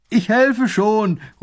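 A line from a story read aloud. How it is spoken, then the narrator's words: Distant call. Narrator (German): ruft er von Weitem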